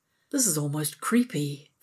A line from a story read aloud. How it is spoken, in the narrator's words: Vala murmurs